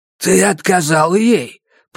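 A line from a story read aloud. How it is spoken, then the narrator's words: Hoarse rasp. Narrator (Russian): прохрипела Пат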